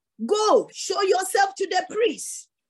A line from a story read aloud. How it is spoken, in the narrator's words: Jesus shouted back to them